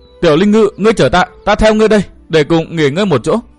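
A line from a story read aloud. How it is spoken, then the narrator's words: Trembling call. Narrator (Vietnamese): nàng run run giọng gọi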